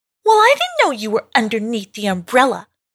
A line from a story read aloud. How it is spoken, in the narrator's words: Quarling snapped back